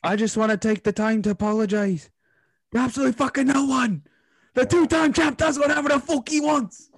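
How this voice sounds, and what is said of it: Imitated Irish accent. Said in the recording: “don't you find that accent is like not scary? ... I just think of an Irish priest, like when he starts talking like that with his accent.”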